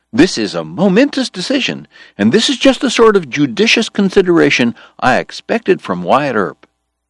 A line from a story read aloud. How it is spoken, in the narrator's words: George cried